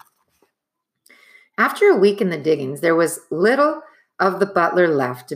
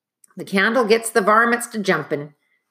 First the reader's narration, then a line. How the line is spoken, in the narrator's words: Pitch Pine Billy exclaimed